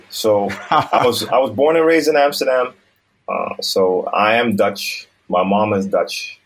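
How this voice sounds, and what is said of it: American accent, not Dutch-sounding. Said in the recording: “You sound like it as well. You do not sound Dutch. Where did you get your American accent from?”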